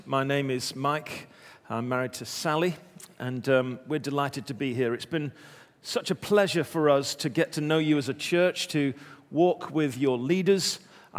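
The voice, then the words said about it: English accent. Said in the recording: “I do have an accent, but it's not the one that perhaps you're expecting... I'm, of course, from England.”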